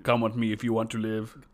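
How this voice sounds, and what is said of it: Put-on Austrian accent. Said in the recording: “Austrian accents”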